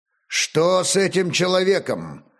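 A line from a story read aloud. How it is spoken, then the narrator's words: Stern question. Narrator (Russian): строго спросил старший из охоронцев у ворот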